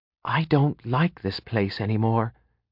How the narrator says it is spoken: Cinnaminson whispered to him

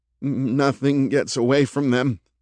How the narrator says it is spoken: murmured Doug

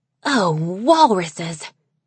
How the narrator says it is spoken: Snowfall hissed

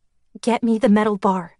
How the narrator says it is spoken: I said, my voice surprisingly steady, considering that my heart was beating so fast that it felt like it was about to burst out of my chest

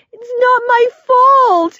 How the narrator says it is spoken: groaned

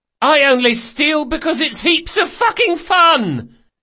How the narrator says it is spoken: The boy raised his glass a bit shakily and yelled

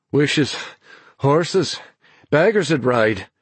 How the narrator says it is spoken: he panted back, grinning in spite of his own weariness

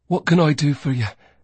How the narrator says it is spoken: He said breathlessly

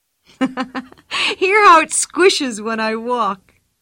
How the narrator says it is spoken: laughed Pippi

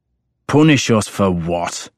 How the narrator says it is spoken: my father demanded savagely

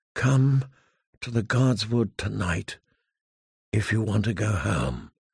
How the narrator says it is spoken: she breathed ever so faintly

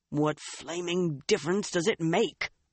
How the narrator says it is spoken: Uno muttered

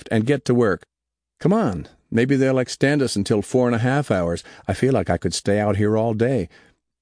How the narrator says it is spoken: Conrad laughed

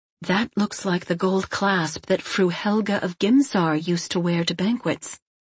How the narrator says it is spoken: she said in a quiet and uncertain voice

